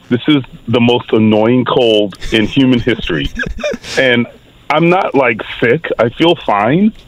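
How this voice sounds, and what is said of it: Hoarse voice from a cold. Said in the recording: “You can probably still hear that I'm hoarse. ... I can't get my voice back right now.”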